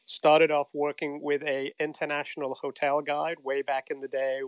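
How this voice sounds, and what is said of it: English accent. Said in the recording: “As you might detect from the accent, I'm originally from England.”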